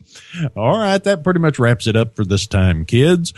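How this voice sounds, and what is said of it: Announcer-style radio voice. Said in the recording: “puts on his radio voice.”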